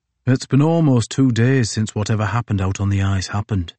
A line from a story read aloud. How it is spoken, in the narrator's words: said Edward Couch